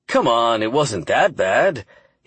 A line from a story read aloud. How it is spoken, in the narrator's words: he chuckled